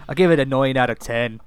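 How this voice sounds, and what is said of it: Poor put-on Irish accent. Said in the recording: “that terrible Irish accent”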